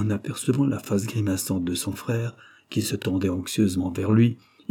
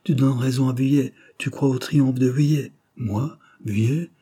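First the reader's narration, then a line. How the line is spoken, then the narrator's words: Shaken exclamation. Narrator (French): s'écria le journaliste en pâlissant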